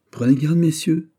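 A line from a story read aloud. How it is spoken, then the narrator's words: Cutting-off exclamation. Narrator (French): s'écria Guiche pour couper court à la réponse de Vardes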